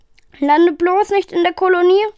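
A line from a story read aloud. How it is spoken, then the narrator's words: Shouting over wind. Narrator (German): rief er über das Heulen des Winds hinweg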